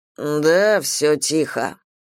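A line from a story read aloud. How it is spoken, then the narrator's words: Grumbling. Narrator (Russian): проворчал Берт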